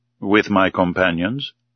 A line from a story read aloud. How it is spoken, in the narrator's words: asked